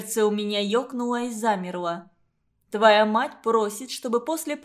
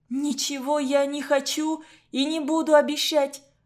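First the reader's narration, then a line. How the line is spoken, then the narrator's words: Tearful shout. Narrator (Russian): Сквозь слезы выкрикнула я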